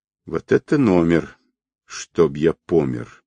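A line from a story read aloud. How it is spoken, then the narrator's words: Surprised mutter. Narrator (Russian): удивленно пробормотал он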